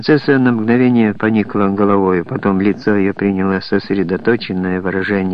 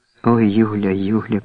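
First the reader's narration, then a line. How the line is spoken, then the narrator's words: Whisper. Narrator (Russian): прошептала принцесса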